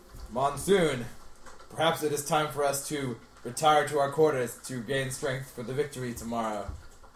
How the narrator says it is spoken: a little bit grumbling about the scenario, but says

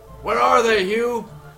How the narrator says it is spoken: Brandis yells out

